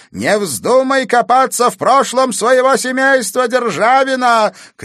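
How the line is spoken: Shouting after someone. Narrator (Russian): крикнула она вдогонку Катерине

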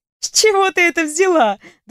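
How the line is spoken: Friendly laugh. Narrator (Russian): дружелюбно рассмеялась я

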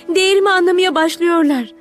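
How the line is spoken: Shouting. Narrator (Turkish): diye bağırdı

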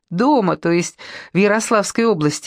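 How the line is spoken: Laughing. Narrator (Russian): засмеялась

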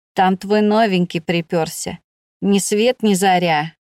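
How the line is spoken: Good-natured grumble. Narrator (Russian): добродушно проворчала она

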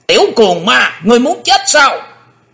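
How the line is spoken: Sudden shout, old monster. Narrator (Vietnamese): lão quái ngư bất chợt đã quát lên

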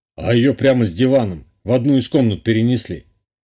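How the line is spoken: Snorting. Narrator (Russian): хмыкнул Гунбарь

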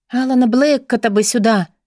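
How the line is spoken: Sighed, at a loss. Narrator (Russian): вздохнула Бри, не зная, что делать с вызванным джинном из бутылки

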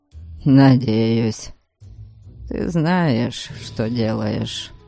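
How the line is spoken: Muttered. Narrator (Russian): пробормотал он

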